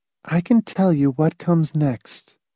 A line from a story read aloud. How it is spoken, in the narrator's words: Marcia said calmly